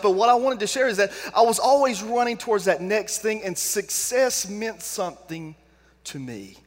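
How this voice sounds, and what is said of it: Mild Southern American accent. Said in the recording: “I have a little Southern accent”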